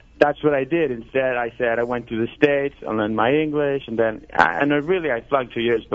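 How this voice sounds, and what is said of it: Speaks English with an accent. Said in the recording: “But you have an accent”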